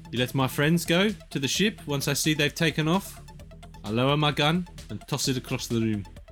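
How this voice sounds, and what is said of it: Put-on South African accent. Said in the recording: “That's a fun thing to say in this accent ... Can't wait to lose our entire South African demographic just from this.”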